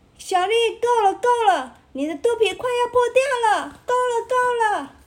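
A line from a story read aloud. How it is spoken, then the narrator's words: Nervous shouting. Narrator (Chinese): 旁边的青蛙们开始紧张的喊叫着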